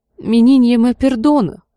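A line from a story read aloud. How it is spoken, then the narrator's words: Woman sobbing. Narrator (Russian): всхлипывала женщина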